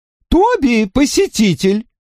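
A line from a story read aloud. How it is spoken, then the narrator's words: Shouting. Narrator (Russian): крикнула миссис Брэнди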